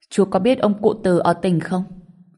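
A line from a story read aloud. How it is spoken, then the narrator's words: Plain. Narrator (Vietnamese): anh ta hỏi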